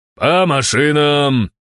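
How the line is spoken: Shouted. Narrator (Russian): крикнул я альтушкам

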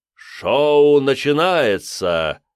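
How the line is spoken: Booming, gleeful necromancer's voice. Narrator (Russian): прогремел на весь лес голос главного некроманта, явно наслаждавшегося происходящим

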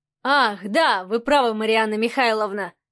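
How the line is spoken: Snort. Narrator (Russian): хмыкнул Адмиралов

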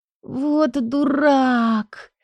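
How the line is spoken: Moaned barely audibly. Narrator (Russian): едва слышно простонала

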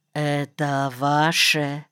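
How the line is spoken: Quiet question, sniffling paused. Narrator (Russian): тихо спросил и даже перестал на мгновение сопеть

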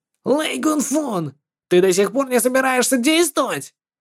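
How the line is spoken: Angry shout. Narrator (Russian): Он злобно закричал

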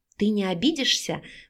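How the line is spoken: Radiant whisper. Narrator (Russian): прошептала губами сияющая Наташа

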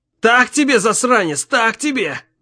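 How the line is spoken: Howling. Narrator (Russian): Взвыл он

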